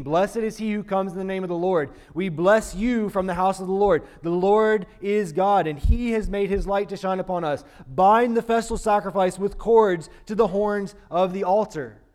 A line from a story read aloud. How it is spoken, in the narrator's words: they were shouting